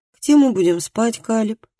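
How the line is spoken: Glum question. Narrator (Russian): уныло поинтересовался

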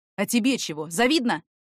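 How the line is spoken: Snapping retort. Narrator (Russian): огрызнулся в ответ

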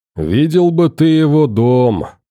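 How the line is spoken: Drawl. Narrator (Russian): протянул Гром

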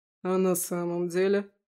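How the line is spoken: Snort. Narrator (Russian): хмыкнул он

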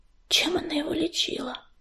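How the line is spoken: Healer's very quiet question. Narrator (Russian): очень тихо спросила целительница

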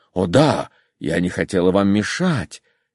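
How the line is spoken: Tender. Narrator (Russian): нежно глядя на него, сказала Лидия Ивановна

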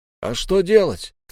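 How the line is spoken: Shout. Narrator (Russian): крикнул

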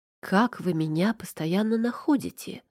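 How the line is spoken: Plain question. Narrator (Russian): спросила

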